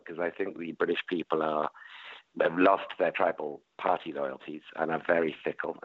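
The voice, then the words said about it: British accent. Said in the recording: “because of my accent to um, um, racial stereotyping”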